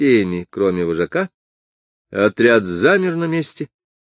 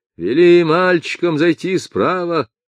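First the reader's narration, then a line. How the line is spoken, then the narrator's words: Mother's harsh hoarse shout. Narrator (Russian): решительно закричал резким, хриплым голосом мать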